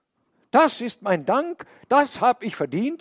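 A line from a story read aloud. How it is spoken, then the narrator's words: Called out. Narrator (German): so rief er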